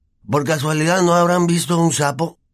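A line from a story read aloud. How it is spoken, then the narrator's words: Moaning. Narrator (Spanish): gimió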